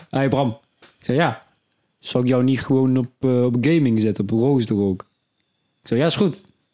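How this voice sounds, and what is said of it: Put-on Brabant accent. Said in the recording (Dutch): “Ik kan geen Twents accent, maar het maakt niet uit. ... Ik doe wel gewoon een beetje Brabant.”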